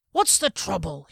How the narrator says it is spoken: he barked

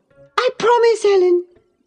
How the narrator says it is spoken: she cried

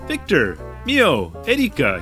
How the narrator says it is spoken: he said cheerfully in English

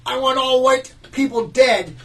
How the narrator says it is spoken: New York City man yelled

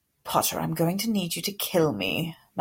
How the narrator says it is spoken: Malfoy muttered

